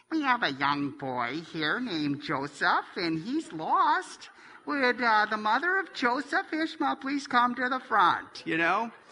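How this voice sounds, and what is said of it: Imitated Milwaukee accent. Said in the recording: “that lady in just such a great Milwaukee accent.”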